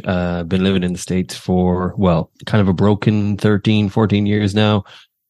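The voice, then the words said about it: Mild Irish accent. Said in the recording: “I try and hide the accent quite a bit, but yes, I am Irish”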